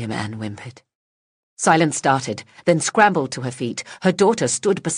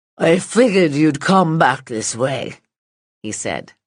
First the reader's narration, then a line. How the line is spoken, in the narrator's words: the words slurred by his shriveled lips